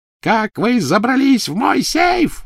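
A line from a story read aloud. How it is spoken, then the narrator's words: Shrieking. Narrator (Russian): визжала Беллатриса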